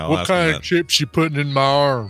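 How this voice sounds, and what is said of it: Put-on Southern US accent. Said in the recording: “why all of a sudden do I have a southern accent? ... Because we like to stereotype our southern accented folk.”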